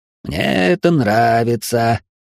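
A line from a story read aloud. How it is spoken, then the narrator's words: Growl. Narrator (Russian): рыкнул татуированный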